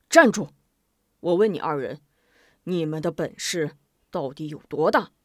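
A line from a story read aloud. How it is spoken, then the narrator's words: Deep stern shout. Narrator (Chinese): 吴明霞沉声喝道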